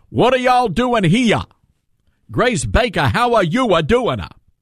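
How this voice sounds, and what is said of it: Exaggerated fake Southern accent. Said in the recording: “Dan Aykroyd trying to pull off a Southern accent. And it just didn't work ... that passes for a Southern accent in Hollywood ... nobody talks like that down here.”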